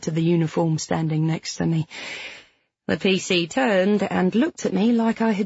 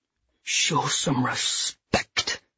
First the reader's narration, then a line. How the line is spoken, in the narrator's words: he hissed